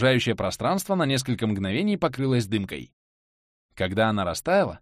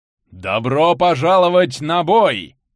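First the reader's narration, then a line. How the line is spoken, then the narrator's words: Thunderous shout. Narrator (Russian): прокричал громовой голос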